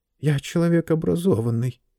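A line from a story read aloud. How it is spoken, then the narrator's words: Mutter. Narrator (Russian): пробормотал он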